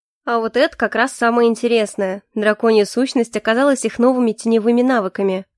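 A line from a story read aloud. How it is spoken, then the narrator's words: Amused snort. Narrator (Russian): хмыкнул Калипсо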